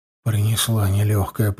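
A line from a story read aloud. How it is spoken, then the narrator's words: Muttering. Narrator (Russian): пробормотал я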